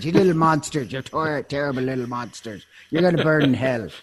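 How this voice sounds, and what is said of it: Put-on Irish accent. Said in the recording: “take on the Irish accent.”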